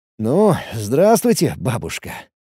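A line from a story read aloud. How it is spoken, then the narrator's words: Chuckling again. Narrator (Russian): еще раз хохотнул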